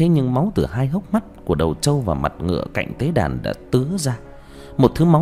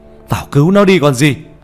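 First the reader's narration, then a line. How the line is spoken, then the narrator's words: Alarmed shout. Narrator (Vietnamese): Nhận ra điều chẳng lành, ông thầy quay lại hét lên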